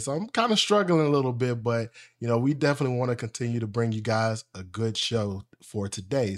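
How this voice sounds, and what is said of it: Slightly unwell-sounding voice. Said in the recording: “y'all can probably still hear it in my voice a little bit”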